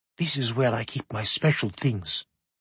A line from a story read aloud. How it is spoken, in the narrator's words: whispered the heir